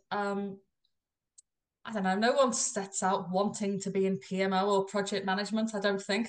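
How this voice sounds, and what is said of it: Liverpool English accent. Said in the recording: “my non-Australian accent ... I'm originally from Liverpool in the UK”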